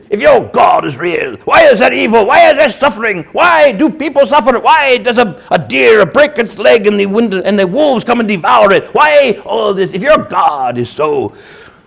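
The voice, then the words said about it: Put-on British accent quoting Hitchens. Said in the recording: “I'll use a little bit of the British accent because they're two Brits, or a Brit and an Australian”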